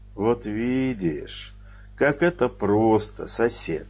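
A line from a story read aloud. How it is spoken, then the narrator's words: Gentle, kind tone. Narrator (Russian): ласково сказал Навуфей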